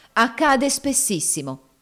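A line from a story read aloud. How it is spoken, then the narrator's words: Woman exclaiming. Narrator (Italian): esclamò la prima signora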